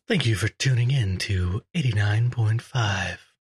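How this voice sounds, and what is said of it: Smooth radio announcer voice. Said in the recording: “Smooth. It's such a great radio voice.”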